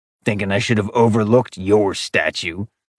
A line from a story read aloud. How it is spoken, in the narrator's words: Falcon growled in the back of his throat